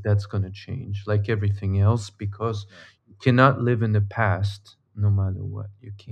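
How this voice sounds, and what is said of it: Non-American foreign accent. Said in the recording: “just hearing by your accent. I know you're not uh, from a... we were not born in America”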